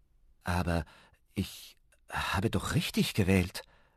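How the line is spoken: Stammering. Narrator (German): stammelte Ben

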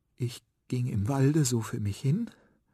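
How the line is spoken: Trembling voice. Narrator (German): mit bebender Stimme

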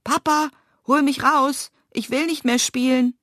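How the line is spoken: Calling out. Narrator (German): ein Knistern ist zu hören, und Nils ruft

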